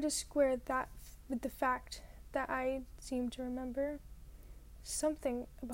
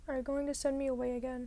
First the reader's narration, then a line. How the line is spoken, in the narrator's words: I asked her